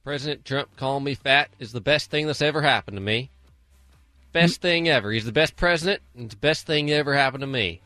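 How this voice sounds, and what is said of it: Put-on Alabama accent. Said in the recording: “Alabama, which was weirdly what accent you were just doing”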